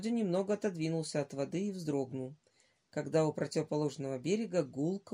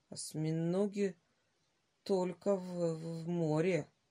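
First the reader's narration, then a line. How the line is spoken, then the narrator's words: Uncertain. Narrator (Russian): неуверенно сказал Володя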